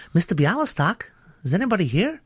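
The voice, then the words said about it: High-pitched character voice. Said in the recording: “that character that you did so well ... It was quite high up, Leo's voice ... He's a vocal chameleon.”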